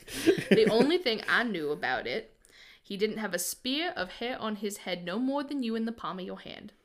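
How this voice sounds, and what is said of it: Put-on accent while storytelling. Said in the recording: “I'm doing an accent.”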